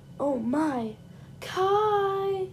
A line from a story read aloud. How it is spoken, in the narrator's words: she hollered